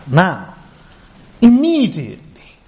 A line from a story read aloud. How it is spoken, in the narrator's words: he exclaimed